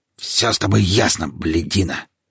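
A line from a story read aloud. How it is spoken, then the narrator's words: Growl. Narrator (Russian): рыкнул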